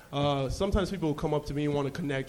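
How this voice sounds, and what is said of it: Slight Nigerian accent. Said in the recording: “I'm Nigerian, might have noticed a little bit of an accent.”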